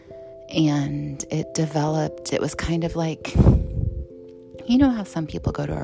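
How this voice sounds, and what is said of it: Calm, soothing radio-style voice. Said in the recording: “podcast voice my NPR voice ... I had the perfect voice for radio ... my voice is very calm ... this is my stewardess voice”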